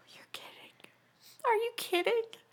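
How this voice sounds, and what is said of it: Panicked voice. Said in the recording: “hear the panic in my voice?”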